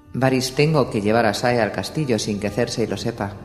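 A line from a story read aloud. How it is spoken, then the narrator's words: Plain. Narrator (Spanish): dijo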